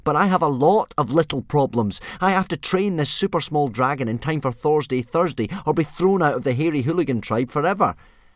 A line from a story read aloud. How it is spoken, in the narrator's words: said Hiccup crossly